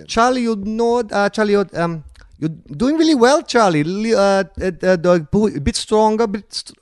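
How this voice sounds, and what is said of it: Poor put-on Brazilian accent. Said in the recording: “I really should be able to do this accent ... it's Brazilian ... terrible”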